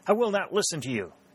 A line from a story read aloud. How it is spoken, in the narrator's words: she cried